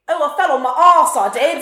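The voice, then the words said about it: Exaggerated bad British accent. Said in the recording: “a really horrible British accent ... Can you do an impression of it?”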